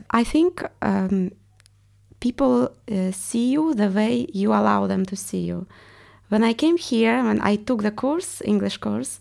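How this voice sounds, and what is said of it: Russian accent. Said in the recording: “I want to get rid of my accent because everyone realized I'm Russian ... your accent is amazing and that makes you different”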